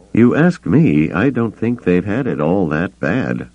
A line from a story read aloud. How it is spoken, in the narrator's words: Han muttered to Chewbacca